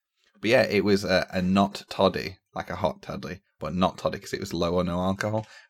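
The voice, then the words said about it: Slightly scratchy, hoarse voice. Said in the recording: “my voice is a little bit scratchy, because I had to talk really loud”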